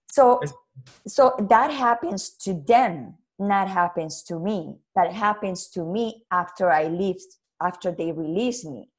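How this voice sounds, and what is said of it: Speaks with a noticeable accent. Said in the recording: “I cannot pronounce because my accent is very.”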